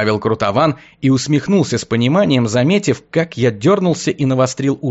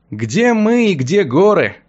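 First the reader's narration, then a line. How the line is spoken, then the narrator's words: Sighing. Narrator (Russian): вздохнул я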